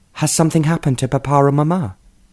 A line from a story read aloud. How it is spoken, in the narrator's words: she asked anxiously